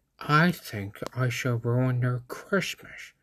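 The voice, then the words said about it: Jim Carrey impression. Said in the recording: “I'm working on my Jim Carrey impression.”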